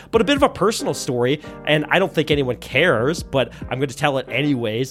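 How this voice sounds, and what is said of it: Sick, under-the-weather voice. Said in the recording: “You could probably tell by my voice, I'm a little bit under the weather. I've been sick for, it seems, months and months and months.”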